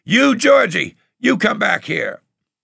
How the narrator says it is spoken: Rosie running behind me and hollering

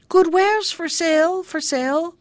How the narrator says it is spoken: called out

